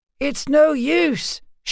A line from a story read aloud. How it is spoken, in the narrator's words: shouted Vera, as the panicked horses reared and plunged